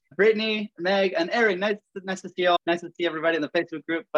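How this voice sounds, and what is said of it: Venezuelan accent, speaks very fast. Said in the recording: “I have a funny accent. ... I'm from Venezuela. I call it funny. My wife calls it sexy. ... I speak very fast.”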